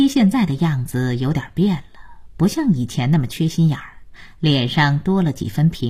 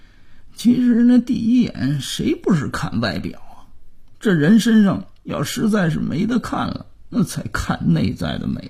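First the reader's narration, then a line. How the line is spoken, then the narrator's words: Defiant muttering under breath. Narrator (Chinese): 姥爷不服气的小声嘀咕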